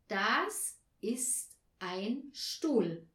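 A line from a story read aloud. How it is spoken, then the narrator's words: Slow, clear enunciation. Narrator (German): sprach sie langsam und deutlich vor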